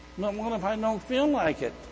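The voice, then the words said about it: Whiny voice. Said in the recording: “that little whiny voice”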